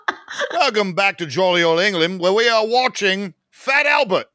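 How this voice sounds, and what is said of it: Poor put-on British accent. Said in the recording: “they don't ask me to do a British accent”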